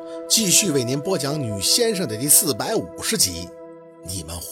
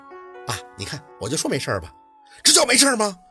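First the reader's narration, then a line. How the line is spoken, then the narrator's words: Angry. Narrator (Chinese): 夏文东怒了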